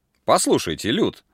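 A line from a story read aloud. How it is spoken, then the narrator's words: Stern. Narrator (Russian): начал Форест строго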